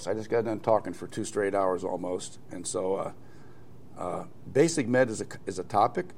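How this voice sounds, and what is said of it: Slightly hoarse voice. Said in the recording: “I'm a little bit hoarse.”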